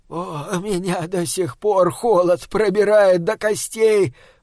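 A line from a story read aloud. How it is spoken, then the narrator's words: Moaning. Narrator (Russian): простонал он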